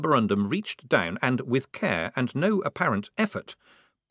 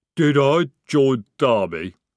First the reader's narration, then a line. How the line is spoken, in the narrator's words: he rumbled